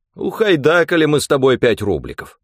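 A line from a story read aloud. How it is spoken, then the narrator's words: Old man, bitter yet cheerful. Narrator (Russian): дед горько и весело объявлял Петьке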